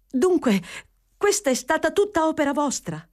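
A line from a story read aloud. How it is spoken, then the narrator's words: Exclaimed. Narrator (Italian): esclamò Fanny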